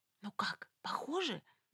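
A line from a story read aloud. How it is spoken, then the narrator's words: Whispered question. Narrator (Russian): шепотом спросила у него Люсьен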